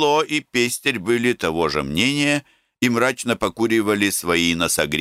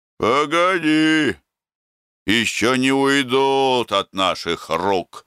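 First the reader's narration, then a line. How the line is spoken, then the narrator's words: Gloomy reply. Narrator (Russian): мрачно отвечал Кайло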